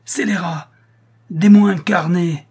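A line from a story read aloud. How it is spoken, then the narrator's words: Exclaimed. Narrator (French): s'écria Schedoni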